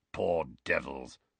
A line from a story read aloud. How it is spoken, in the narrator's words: growled Moody